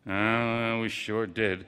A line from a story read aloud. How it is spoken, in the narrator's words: murmured